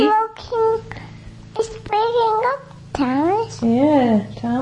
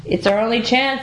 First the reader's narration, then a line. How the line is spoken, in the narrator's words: said his driver